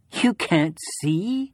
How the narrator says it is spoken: She laughed merrily, delighted by the prospect of my blindness

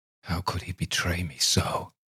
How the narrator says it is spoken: muttered

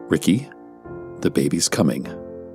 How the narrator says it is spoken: calmly stated

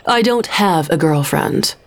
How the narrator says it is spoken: Cameron had told him off, firmly

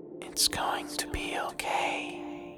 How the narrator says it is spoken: the faintest whisper, a woman's voice saying

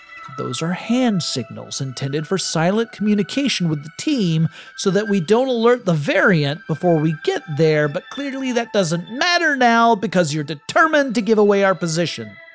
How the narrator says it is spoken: Mobius sighs and says

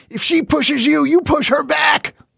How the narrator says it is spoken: he shouted once

